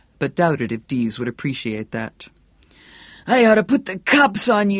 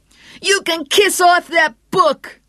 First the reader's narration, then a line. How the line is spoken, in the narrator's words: Dee screamed